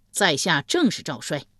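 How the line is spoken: Loud reply. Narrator (Chinese): 赵衰高声应道

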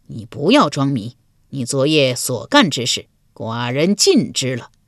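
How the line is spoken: Cold sneer. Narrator (Chinese): 鲁桓公又是一声冷笑

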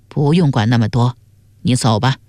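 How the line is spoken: Cold. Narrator (Chinese): 隐士神色微变，但随即冷冷地说

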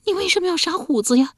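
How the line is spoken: Muffled tearful voice. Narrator (Chinese): 这声音是透过指缝传出来的，且带着哭腔

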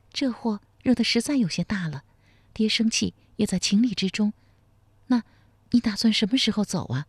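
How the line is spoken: Soft sigh. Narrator (Chinese): 贺金蝉轻叹一声说

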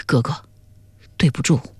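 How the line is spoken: Low, pained voice. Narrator (Chinese): 他心里一阵痛楚 最后低声说了句

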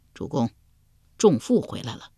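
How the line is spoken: Soft spoken. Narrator (Chinese): 鲍叔牙对齐桓公轻声说道

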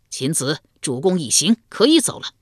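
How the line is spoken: Loud call. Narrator (Chinese): 大声呼道

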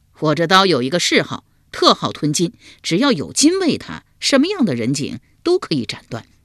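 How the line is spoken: Laughing reply. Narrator (Chinese): 秋亚会意，笑回道

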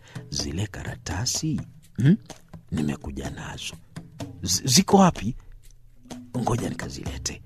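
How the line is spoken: Whispering. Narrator (Swahili): kumnongonezea

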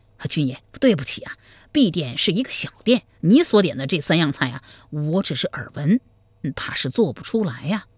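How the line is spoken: Nervous, ingratiating. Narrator (Chinese): 店家头上开始冒汗了，满脸陪笑说

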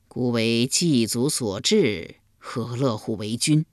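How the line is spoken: Gloomy sigh. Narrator (Chinese): 立公郁郁不乐，叹道

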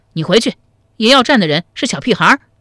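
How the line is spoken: Loud, commanding. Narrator (Chinese): 石守信用马鞭指着高怀德大声说道

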